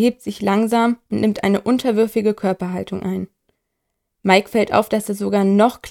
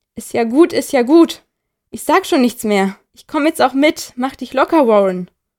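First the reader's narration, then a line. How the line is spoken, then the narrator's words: Calling out, man. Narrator (German): ruft er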